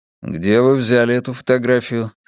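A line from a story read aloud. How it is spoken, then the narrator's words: Plain. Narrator (Russian): спросил я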